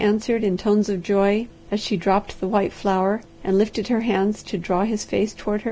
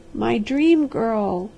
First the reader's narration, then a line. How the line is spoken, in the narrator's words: he cried hoarsely